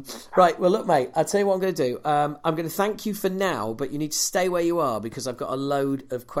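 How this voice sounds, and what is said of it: Usual voice. Nothing is said of it.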